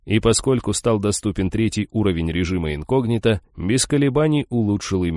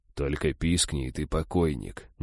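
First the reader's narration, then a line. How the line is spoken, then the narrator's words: Quiet. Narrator (Russian): негромко произнес я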